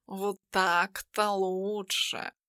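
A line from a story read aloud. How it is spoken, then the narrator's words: Purred. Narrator (Russian): промурлыкал он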